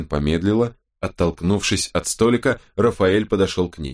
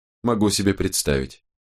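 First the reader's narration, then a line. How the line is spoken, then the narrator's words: Calm reply. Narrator (Russian): спокойно ответила Робин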